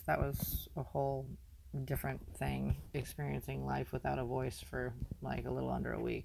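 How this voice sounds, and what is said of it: Slightly hoarse voice. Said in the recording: “I probably have a little bit of hoarseness to my voice.”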